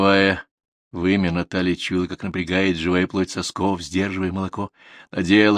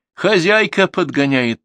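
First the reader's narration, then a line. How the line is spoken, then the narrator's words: Cheerful answer. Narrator (Russian): ответила весело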